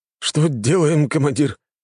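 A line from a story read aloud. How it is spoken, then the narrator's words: Frightened speech. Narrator (Russian): испуганно проговорил заместитель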